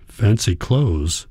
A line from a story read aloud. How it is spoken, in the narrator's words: Hans mumbles